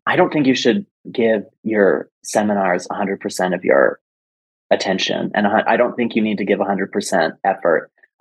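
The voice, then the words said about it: Lowered, quieter voice. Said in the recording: “my voice is lowering because I'm like, is anyone listening?”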